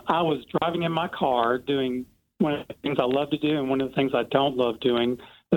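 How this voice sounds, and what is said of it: Noticeable regional American accent. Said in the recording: “Oh, I love your accent.”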